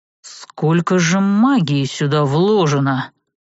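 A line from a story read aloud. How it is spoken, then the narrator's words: Breathed out. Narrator (Russian): выдохнул Серж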